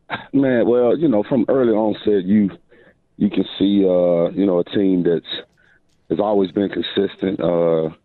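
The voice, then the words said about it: Slightly hoarse voice. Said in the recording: “Voice a little hoarse.”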